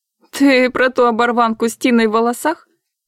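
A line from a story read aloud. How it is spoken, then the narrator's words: Laughing woman. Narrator (Russian): Снова засмеялась третья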